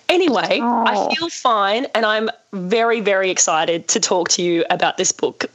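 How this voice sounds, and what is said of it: Very croaky voice. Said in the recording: “I am very, very croaky. I have a cold. ... I lost my voice last night”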